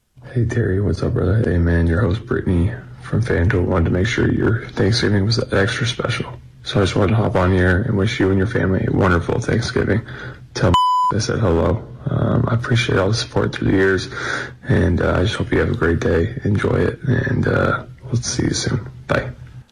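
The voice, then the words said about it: Sexy voice. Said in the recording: “why is he using his sexy voice?”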